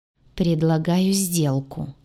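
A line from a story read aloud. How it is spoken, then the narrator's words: Grim, sullen. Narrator (Russian): мрачно глядя из-под лобья, проговорила я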